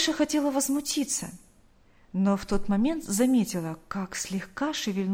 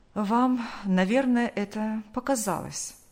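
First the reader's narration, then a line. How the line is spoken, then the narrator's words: Calm doctor. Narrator (Russian): Врач спокойно произнес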